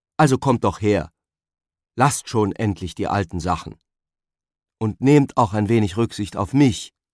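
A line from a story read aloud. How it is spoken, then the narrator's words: Calling out. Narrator (German): rief er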